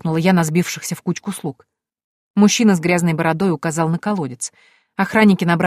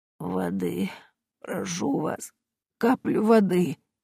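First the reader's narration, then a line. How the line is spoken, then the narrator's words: Barely audible whisper. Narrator (Russian): бедняжка еле слышно прошептала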